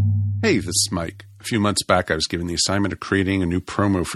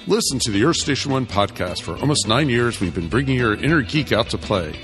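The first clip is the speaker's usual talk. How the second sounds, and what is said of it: Announcer voice. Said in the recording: “my announcer voice”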